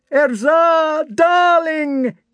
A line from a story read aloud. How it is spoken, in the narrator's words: Ilyagin wailed in a voice unlike his own